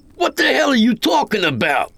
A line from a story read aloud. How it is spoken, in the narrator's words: I roared